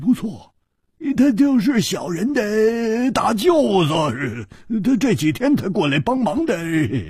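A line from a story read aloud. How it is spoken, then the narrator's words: Ingratiating smile. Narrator (Chinese): 那个马脸汉子居然笑着，陪着笑说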